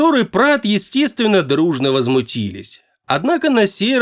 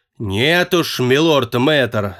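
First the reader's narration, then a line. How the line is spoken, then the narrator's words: Growling interruption. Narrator (Russian): зарычал в ответ на это Прат, с неожиданной бесцеремонностью перебив молодого волшебника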